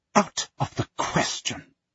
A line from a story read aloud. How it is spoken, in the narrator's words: she hisses